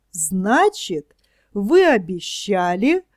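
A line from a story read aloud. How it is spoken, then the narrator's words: Joyful child. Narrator (Russian): радостно подхватил малыш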